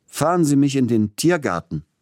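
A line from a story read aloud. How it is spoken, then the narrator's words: Calling out. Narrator (German): rief er dem Kutscher zu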